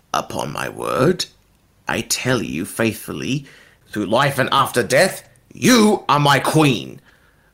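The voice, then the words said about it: Villainous character voice. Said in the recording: “in your best villainous voice”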